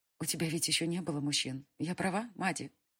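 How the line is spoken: Sudden quiet question, young witch. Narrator (Russian): тихо спросила вдруг ведьмочка

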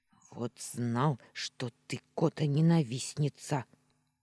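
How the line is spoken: Offended hiss. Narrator (Russian): обиженно прошипел он

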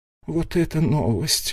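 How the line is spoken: Bewildered. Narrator (Russian): растерянно покачала головой королева

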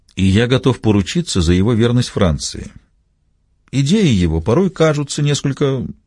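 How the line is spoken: Quiet objection. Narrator (Russian): негромко возразил Костельно

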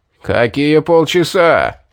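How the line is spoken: Roar. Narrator (Russian): взревел предводитель

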